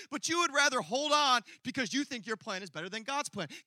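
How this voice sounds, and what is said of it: Talking very fast. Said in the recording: “I'm talking really fast.”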